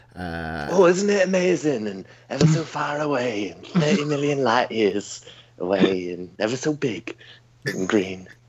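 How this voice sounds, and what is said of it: Imitates another person's voice. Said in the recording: “that is an uncanny impersonation of somebody”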